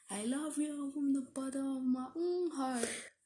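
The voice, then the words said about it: Rapper impression voice. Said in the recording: “This is my rapper impression.”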